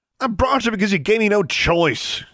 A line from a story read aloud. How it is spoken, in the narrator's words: he yelled